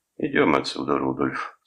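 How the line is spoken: Calm. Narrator (Russian): спокойно сказал Бойлон

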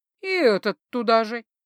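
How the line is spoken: Sad sigh. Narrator (Russian): печально вздохнула

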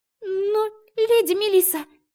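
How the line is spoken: Girl's squeak. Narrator (Russian): пискнула девчонка

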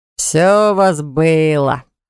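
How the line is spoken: Snorting, wry. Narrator (Russian): хмыкнул Баграт

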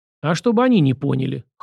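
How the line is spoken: Evasive snort. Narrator (Russian): хмыкнул Сашка, не желая вдаваться в подробности

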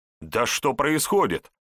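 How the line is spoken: Loud indignation. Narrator (Russian): громко возмущался Егор

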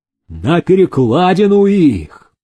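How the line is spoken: Angry crowd shouting. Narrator (Russian): кричали обозленные пугачевцы

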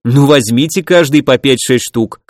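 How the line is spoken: Snorting chuckle. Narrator (Russian): хмыкнул я

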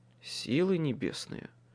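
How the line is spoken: Muttering. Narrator (Russian): пробормотал я

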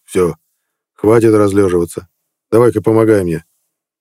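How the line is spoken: Grumbled. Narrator (Russian): буркнул

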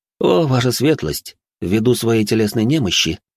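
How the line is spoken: Calm. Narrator (Russian): спокойно сказал

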